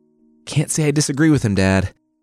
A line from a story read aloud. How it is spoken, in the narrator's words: Apollo said through panting